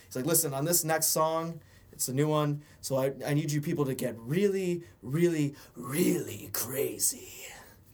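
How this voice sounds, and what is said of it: Imitates another person's voice. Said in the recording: “So you got it pretty good ... you didn't really sell it ... It sounds exactly like Mark Hamill”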